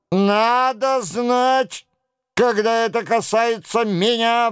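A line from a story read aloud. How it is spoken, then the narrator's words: Roaring young man. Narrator (Russian): взревел молодой человек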